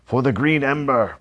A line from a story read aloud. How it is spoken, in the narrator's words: Lord Blackstar shouted